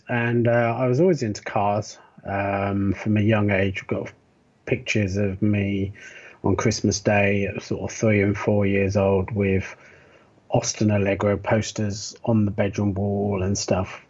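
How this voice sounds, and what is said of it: British accent. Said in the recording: “as you can probably tell from my accent, I originally come from the UK, born in Bristol”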